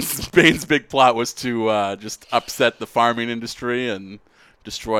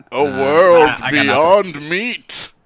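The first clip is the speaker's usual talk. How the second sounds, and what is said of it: Sean Connery Bond villain impression. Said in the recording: “doing an impression of Sean Connery as like a Bond villain ... It turned into a Bane voice a little bit.”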